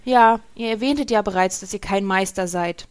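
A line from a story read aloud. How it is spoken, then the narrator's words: Slightly disappointed. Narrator (German): sagte Rastil mit leicht enttäuschter Stimme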